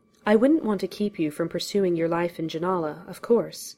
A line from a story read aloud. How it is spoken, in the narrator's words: Garrick said, in a completely neutral tone